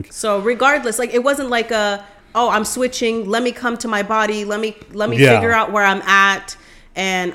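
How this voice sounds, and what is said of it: Yelling, loud voice. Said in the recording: “I'm yelling. I'm sorry. I need to quiet down.”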